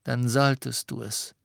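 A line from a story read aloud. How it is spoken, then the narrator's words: Plain. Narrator (German): sagte Dumbledore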